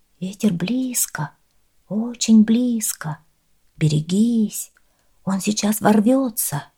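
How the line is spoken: Whispered. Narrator (Russian): Они прошептали

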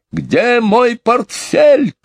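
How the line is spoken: Shouting. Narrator (Russian): кричал мистер Банкс

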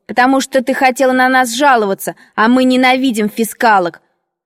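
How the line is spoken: Girl's impudent shout. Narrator (Russian): рыженькая воспитанница ... дерзко крикнула мне в лицо

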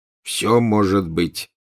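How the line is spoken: Gloomy. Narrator (Russian): мрачно ответил Фред

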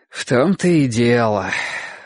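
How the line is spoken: Sigh. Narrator (Russian): вздохнул Ясон

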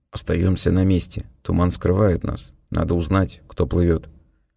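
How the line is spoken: Low-voiced order. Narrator (Russian): Винниту приказал вполголоса

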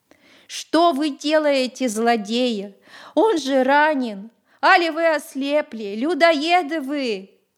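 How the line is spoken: Outraged woman's scream. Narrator (Russian): закричала Демчиха

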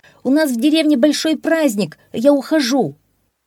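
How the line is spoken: Shouted. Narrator (Russian): Энензи крикнул

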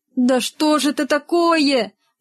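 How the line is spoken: Pleading. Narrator (Russian): взмолился Рогов

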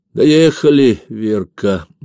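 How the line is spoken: Glum. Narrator (Russian): невесело сказал

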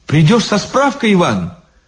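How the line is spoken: Agitated. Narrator (Russian): взволнованно сказала Лиза

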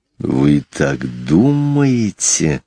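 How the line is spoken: Hissed by a cobra. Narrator (Russian): прошипел очковый змей

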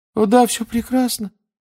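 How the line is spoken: Unnaturally high babble. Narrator (Russian): пролепетал он все тем же неестественно высоким тоном

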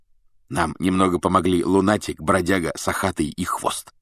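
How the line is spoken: Whispered in ear. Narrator (Russian): шепнул Фред Гарри на ухо

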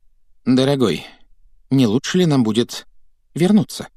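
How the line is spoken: Timid question. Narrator (Russian): Робко поинтересовалась тетя Петунья

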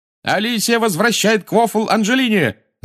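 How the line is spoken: Shout. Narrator (Russian): закричал Ли

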